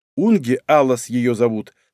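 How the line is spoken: Calm young woman. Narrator (Russian): спокойно произнесла девушка

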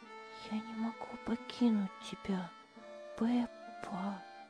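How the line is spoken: Whisper. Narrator (Russian): прошептала она

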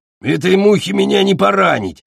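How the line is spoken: Dragon's growl. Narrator (Russian): зарычал дракон

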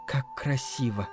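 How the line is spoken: Whisper. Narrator (Russian): прошептала Мицука

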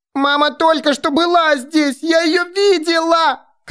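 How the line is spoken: Shouting woman. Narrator (Russian): кричала она

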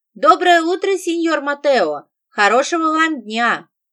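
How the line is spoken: Loud shout. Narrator (Russian): я громко крикнула соседу напротив

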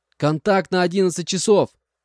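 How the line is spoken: Shouted warning. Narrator (Russian): выкрикнул я вслед за Одином, предупреждая парней

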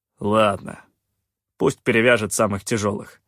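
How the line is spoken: Grumbling. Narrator (Russian): проворчал Калаан

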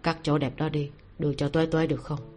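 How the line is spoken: Gentle, faint smile. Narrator (Vietnamese): Ninh Ân khẽ nhếch môi lên, nhẹ nhàng nói

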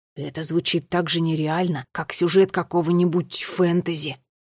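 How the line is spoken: Whisper. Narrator (Russian): прошептал Неллио

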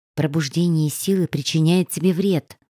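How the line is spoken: Mother's gentle whisper. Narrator (Russian): прошептала мама

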